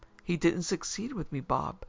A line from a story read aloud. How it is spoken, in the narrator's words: he cried triumphantly